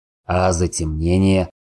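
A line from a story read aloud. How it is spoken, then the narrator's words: Snort. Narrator (Russian): хмыкнул Сорил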